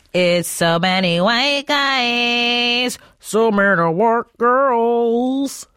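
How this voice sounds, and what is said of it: Imitates a rock singer's voice. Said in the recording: “my Pearl Jam impression... It sounds like a car engine flooding”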